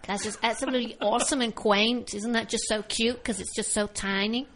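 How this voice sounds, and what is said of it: Bad put-on American accent. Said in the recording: “That's a really bad American accent.”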